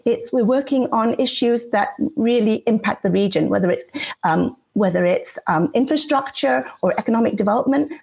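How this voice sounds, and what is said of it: English accent. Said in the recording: “you have a unique accent. ... I listen to the BBC quite a bit, and I know you have an English background ... my accent comes and goes depending on who”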